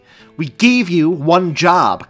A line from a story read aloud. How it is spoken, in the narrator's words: Clint snapped